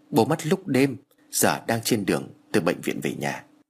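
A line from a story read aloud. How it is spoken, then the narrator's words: Choked with tears. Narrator (Vietnamese): Thằng em của tôi nghẹn ngào trả lời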